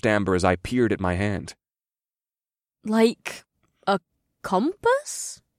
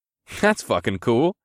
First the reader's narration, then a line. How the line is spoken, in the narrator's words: I said with another chuckle